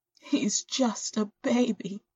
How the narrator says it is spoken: she sobs into her hands

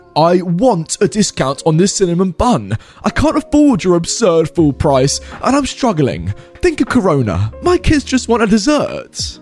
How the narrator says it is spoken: It's the entitled dad shouting

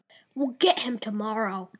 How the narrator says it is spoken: croaked out Crane

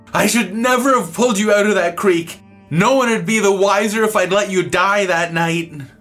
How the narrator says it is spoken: he was yelling and blubbering mad and sad, and he screamed at me

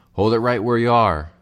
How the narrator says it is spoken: Fred Wishingham's voice shouted

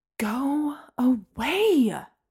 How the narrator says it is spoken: I hissed

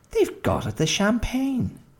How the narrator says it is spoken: exclaimed Mrs

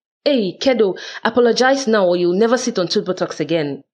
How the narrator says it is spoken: just as I'm about to holler my well-meant threat

